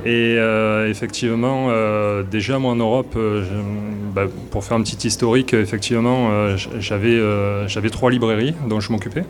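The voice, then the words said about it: Southern French accent. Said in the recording (French): “ils vont de suite reconnaître mon accent, donc euh, un accent du sud de la France”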